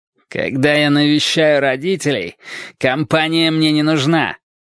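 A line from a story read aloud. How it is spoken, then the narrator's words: Growling. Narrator (Russian): прорычал он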